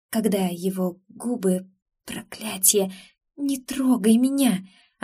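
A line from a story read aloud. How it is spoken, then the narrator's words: Hoarse, breathless exhale. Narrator (Russian): охрипшим голосом выдохнула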